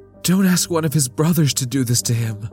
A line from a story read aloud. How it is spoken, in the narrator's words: Lita pleaded